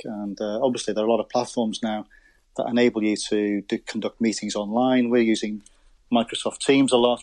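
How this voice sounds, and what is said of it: Slight Scouse accent. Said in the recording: “I'm from Merseyside. I was born on the Wirral, so you can probably detect a slight Scouse accent.”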